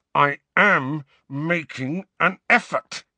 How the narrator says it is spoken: he said through clenched teeth

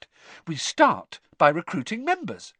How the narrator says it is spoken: said Hermione happily

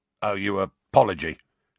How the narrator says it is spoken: grunted

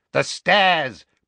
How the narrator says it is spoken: cried Dawlish

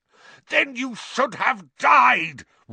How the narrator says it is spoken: roared Black

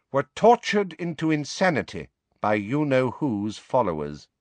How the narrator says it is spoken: she said, turning haughtily to Harry, Ron, Hermione and Ginny

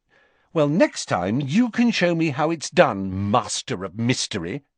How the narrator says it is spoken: she snapped

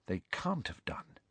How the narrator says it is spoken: said Hermione in a low voice

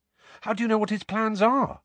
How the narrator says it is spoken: Harry asked quickly

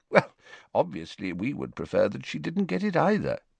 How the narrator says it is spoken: said Dumbledore calmly

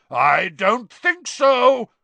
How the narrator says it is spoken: roared Moody

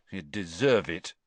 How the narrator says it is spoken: Cedric muttered

